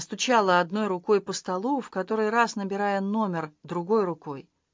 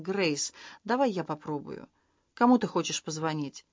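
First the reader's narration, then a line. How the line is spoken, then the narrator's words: Quiet. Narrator (Russian): тихо сказал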